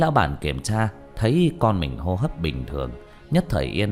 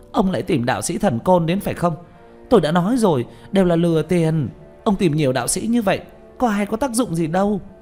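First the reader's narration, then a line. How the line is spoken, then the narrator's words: Hissing. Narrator (Vietnamese): hướng Lý lão bản rít lên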